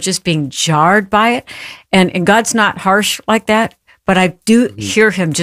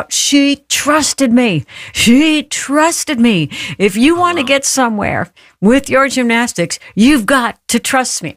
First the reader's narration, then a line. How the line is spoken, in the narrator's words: he yells out